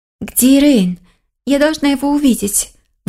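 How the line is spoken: Agitated restrained fox. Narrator (Russian): Взволнованно проговорила лиса, сдерживая себя

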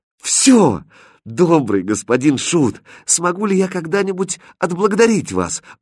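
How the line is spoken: Cheerful exclamation. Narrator (Russian): воскликнула повеселевшая Катринка

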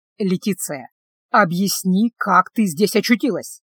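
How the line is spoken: Very unpleasant voice. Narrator (Russian): Весьма неприятным голосом сказал он

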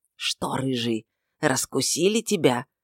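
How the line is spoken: Booming whisper, hollow. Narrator (Russian): Даже шепотом голос гнома звучит, как из бочки

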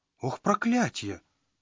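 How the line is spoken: Panicked exclamation. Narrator (Russian): панически воскликнул Родранер

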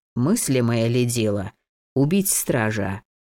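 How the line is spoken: Sigh. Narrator (Russian): Он вздохнул

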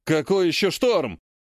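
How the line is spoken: Barked. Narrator (Russian): рявкнул Вяземский

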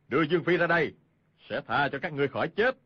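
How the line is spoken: Shout. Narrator (Vietnamese): Hoàng Nhan Hồng Liệt quát lên

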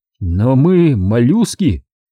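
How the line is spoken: Hoarse wheeze. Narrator (Russian): прохрипел Тейкин

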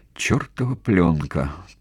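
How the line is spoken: Tearful mutter. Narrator (Russian): пробормотала Кими, и слезы градом покатились по ее щекам

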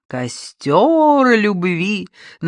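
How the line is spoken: Sing-song mocking. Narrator (Russian): нараспев передразнила Надежда Тимофеевна

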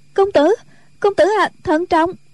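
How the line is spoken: Frightened cry. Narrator (Vietnamese): Tiểu Chiêu thân sắc sợ hãi kêu lên

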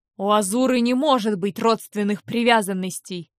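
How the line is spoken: Angry bark. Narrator (Russian): рявкнул он со злостью

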